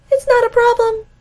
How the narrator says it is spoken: he says, even though his voice jumps a couple octaves

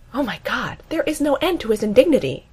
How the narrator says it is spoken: Amy gasps

